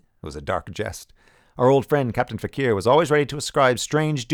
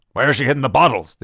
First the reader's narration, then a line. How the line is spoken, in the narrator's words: the general cried from the next room